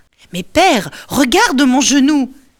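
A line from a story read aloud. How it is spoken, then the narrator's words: Shouting. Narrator (French): crie Ulysse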